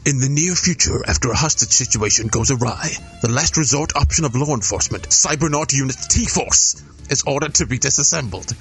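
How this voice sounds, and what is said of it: Movie trailer announcer voice. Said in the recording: “try a different trailer voice”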